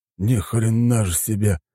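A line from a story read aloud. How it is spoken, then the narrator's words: Breathed out. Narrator (Russian): выдохнул Матоби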